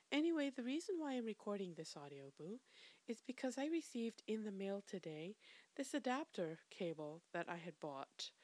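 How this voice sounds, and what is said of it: Raspy voice from a cold. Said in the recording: “excuse my voice, I've come down with a cold, and for some reason, every time I catch a cold, laryngitis is sure to follow. So, my voice sounds a little bit raspy”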